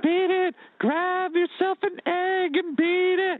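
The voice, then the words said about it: High-pitched imitation of a singer. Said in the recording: “if you did that in a high voice, you'd be like Michael Jackson”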